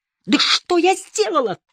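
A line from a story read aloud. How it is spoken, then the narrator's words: Shrieked. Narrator (Russian): взвизгнула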